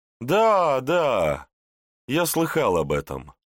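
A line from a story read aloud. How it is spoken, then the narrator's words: Cheerful merchant confirming. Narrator (Russian): весело подтвердил купец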